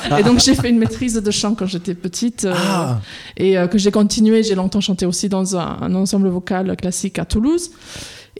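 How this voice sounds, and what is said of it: Slight English accent in French. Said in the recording (French): “je suis à la base anglaise. Vous l'entendez peut-être dans mon petit accent.”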